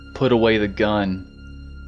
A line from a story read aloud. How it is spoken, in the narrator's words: his voice shaking with desperation